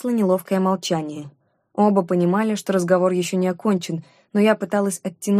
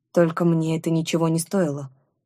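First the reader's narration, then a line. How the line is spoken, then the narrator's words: Surprisingly calm objection. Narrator (Russian): возразил он на удивление спокойно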